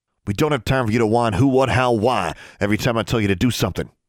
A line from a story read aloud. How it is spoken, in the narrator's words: he snapped, in the same voice he used when barking orders in JROC